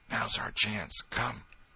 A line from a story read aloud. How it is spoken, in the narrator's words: Tom whispered